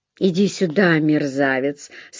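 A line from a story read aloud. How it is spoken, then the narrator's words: Laughing mutter. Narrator (Russian): со смехом пробормотал Эллири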